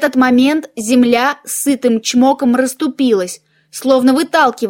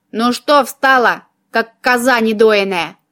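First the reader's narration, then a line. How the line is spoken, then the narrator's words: Snide question. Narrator (Russian): ехидно поинтересовался череп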